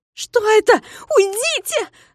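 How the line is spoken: Trembling terrified shriek. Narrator (Russian): завизжала Минога, трясясь всем телом

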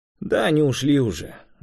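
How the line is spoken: Sighing. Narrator (Russian): вздохнул Ренат

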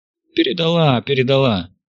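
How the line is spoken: Pleased chuckle. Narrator (Russian): Яков довольно хохотнул

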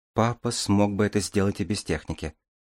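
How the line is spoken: Sigh. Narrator (Russian): вздохнула Дарья

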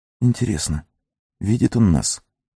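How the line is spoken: Whisper. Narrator (Russian): прошептал Сэм

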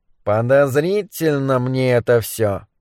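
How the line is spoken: Grumbling mutter. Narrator (Russian): буркнул Моррис

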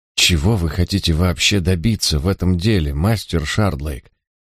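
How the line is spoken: Quiet question. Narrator (Russian): Эдвард негромко спросил

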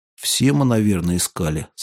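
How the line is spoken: Plain. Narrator (Russian): сказал Голован

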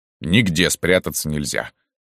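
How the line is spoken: Petulant grumble. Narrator (Russian): капризно проворчал он

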